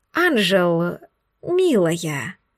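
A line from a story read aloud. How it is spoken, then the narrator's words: Through gritted teeth. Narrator (Russian): проговорила леди Даниэлс сквозь зубы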